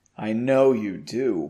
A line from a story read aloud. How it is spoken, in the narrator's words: Margot replied, now in a sultry voice